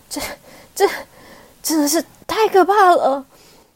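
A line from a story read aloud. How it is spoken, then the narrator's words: Breathless. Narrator (Chinese): 小朵喘着气说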